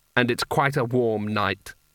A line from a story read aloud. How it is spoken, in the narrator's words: said flatly